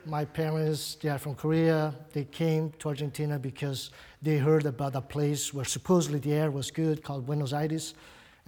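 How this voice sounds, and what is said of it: Brazilian-accented English. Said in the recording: “I do have an accent... where my accent comes from. It's Brazilian.”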